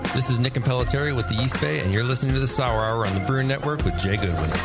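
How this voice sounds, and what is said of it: Polished radio announcer voice. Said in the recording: “Sounding good. I'm jealous of his radio voice.”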